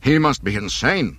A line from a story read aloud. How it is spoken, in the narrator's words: Captain Nida cried